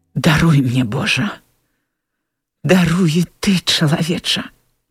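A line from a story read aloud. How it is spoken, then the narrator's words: Whisper. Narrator (Belarusian): прашаптала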